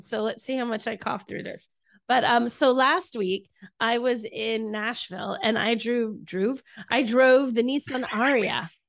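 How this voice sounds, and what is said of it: Sick voice with a cold. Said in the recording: “I sound terrible because I have a cold.”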